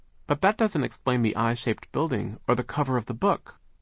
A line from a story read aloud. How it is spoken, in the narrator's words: Sunny exclaimed